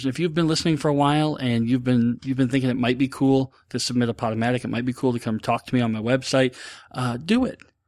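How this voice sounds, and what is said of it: Very fast speech. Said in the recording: “I'm sorry if I'm talking really fast.”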